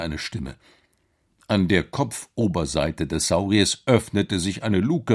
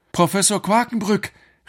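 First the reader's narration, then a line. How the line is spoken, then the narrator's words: Called out. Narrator (German): rief Alex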